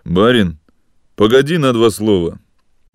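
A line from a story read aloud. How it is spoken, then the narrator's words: Deep thick bass. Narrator (Russian): густо басом сказал высокий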